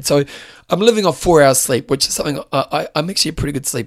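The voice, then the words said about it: Hoarse, fading voice. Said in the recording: “you can hear my voice is dying ... I've been losing my voice because I screamed too much”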